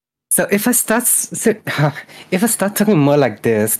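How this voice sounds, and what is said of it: Put-on higher-pitched Valigo accent. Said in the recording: “trying to change my accent, trying to make it higher ... do a Valigo accent and actually having people say that it's way too accurate ... that's how I would do my Valigo accent bit”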